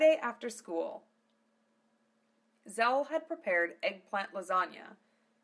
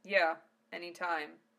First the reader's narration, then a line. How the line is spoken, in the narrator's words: Zell answered curtly